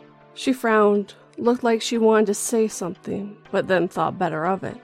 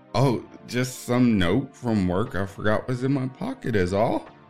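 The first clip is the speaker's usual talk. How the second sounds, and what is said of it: Weird voice. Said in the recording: “I said in a weird voice.”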